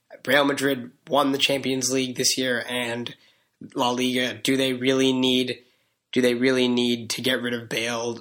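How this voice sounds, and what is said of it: Strained, fading voice. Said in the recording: “I'm losing my voice a little bit.”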